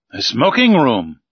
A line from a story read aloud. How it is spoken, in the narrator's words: I cried